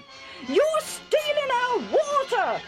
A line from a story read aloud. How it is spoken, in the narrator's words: they shouted